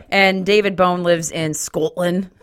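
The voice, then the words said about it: Attempted Scottish accent. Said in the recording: “That's the best accent I can do for that. ... I love that accent, but it is the hardest one to do.”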